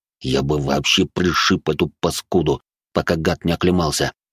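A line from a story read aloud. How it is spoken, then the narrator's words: Gritted teeth. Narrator (Russian): процедил сквозь зубы дежуреньи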